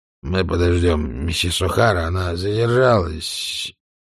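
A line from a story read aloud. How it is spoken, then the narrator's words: Muttered. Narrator (Russian): он пробормотал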